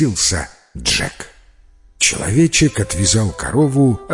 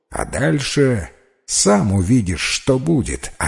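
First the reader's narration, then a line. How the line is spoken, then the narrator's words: Plain reply. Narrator (Russian): ответил человечек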